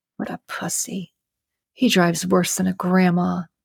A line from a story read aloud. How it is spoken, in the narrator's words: Pacey mumbled to himself